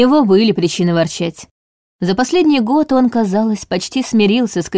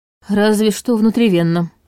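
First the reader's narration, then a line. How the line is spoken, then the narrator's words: Gruff mutter. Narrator (Russian): буркнул Долгов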